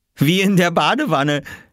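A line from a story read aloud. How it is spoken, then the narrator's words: Laughing. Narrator (German): lachte Oskar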